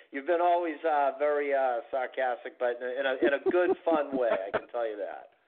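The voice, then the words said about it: Boston accent. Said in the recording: “I'm very used to the Boston accent... I'm well aware that I'm the one with the accent”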